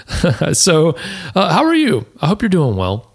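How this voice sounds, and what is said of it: Slightly deeper than usual voice. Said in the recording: “I think my voice is a little deeper today ... allergy stuff ... my voice is nice and deep because of that ... I'm not Barry White ... my voice is a little deeper”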